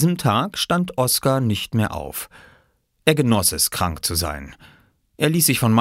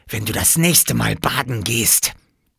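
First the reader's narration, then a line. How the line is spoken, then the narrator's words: Hissing. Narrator (German): zischte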